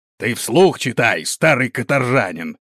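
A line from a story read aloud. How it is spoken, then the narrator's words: Growled. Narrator (Russian): прорычал Гронт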